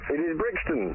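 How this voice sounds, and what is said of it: Poor put-on Italian accent. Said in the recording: “your mangled Italian accent ... even in the poorest accent”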